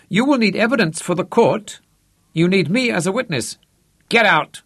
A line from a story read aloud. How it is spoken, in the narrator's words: Manfred snapped